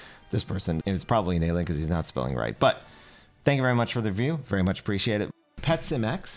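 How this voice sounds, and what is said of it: Usual voice. Nothing is said of it.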